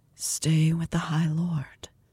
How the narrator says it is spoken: whispers

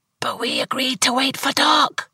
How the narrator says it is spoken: Jackie whispered back, her voice raspy and terrified

